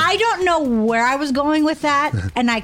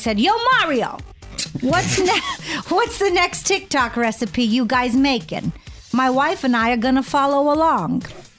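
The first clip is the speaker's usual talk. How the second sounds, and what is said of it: Half-hearted Brooklyn accent attempt. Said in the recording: “we gotta work on that Brooklyn accent ... I kind of stopped in the middle. I didn't really commit”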